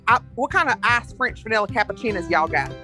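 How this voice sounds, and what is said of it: Put-on Southern Alabama accent. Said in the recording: “a type of demographic in Alabama in the South ... you can tell it by the accent ... they're usually pretty pretentious about it”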